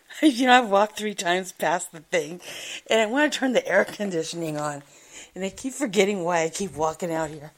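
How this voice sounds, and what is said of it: Hoarse, recovering voice. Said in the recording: “I started losing my voice. Last week I lost my voice. ... I just got it back, but you can still hear it. It still sounds like old.”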